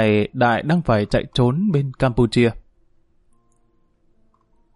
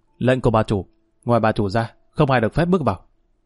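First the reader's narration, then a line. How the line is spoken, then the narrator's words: Cold reply. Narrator (Vietnamese): Một tên lạnh lùng trả lời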